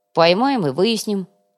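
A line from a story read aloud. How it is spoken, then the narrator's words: Snort. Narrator (Russian): хмыкнул Артем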